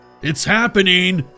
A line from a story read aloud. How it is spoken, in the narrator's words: he shouted over the noise